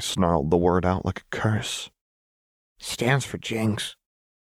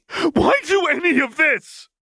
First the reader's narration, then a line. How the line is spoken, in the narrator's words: Vi screamed